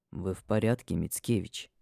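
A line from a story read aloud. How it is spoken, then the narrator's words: Quiet question. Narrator (Russian): Негромко спрашивает он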